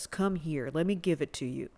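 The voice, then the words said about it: Put-on sexy voice. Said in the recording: “That's not my sexy voice, by the way. It totally is.”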